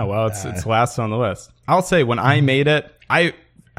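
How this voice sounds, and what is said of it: Usual voice. Nothing is said of it.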